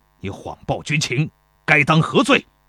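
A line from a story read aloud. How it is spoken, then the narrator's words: Furious, humiliated interrogation. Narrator (Chinese): 庞涓恼羞成怒，怒气冲冲地质问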